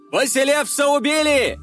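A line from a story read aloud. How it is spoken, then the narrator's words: Crowd shouting. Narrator (Russian): кричали вокруг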